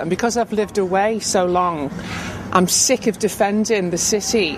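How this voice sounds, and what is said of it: Woman with a Scouse accent. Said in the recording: “a sample of just a normal uh, Scouse voice ... just a normal woman uh, who's clearly got a, a Scouse accent.”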